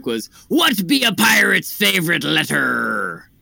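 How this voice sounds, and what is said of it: Cheesy put-on pirate accent. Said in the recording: “You got the pirate accent down. ... Straight dripping in cheese.”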